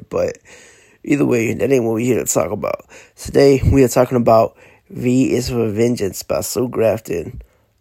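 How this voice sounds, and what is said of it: Sick, congested-sounding voice. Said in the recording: “excuse my voice. I think I am getting sick. Or it may just be sinus drainage.”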